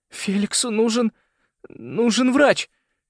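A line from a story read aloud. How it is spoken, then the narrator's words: Strained, broken voice. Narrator (Russian): Кое-как выдавил он надломленным голосом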